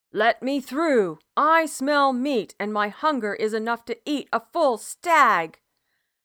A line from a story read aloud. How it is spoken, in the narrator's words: Laughing like a wild boar's roar, Bethan